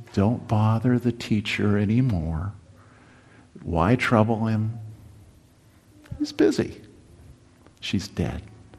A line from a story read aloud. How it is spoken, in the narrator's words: Some people whispered